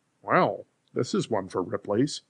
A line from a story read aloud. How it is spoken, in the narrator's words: Cranston mutter